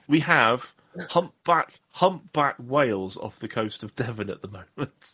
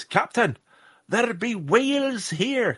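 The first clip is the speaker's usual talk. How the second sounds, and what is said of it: Bad put-on Scottish accent. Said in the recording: “that was a terrible Scottish accent, and I apologise”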